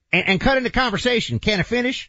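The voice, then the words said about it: Impersonation of a politician. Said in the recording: “That might be top five of your impersonations.”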